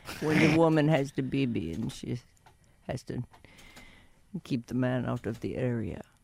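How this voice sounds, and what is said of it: Impression of another person's voice. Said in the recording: “That's my Jorge impersonation. I'll work on it.”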